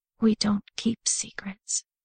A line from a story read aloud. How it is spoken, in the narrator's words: she whispered to herself, as tears started to well in her eyes again